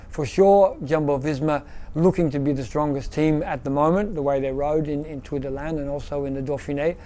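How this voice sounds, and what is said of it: Belgian-sounding accent. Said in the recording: “The most Belgium accent in an Australian body I've ever heard. ... Dutch sort of quirky Belgian accent.”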